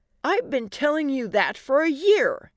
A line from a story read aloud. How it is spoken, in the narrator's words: Allie exclaimed